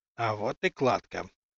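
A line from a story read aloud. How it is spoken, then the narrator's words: Dry-lipped whisper. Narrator (Russian): прошептал сухими губами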